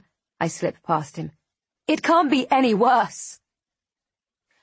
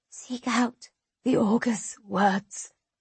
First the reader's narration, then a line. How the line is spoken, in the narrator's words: she whispers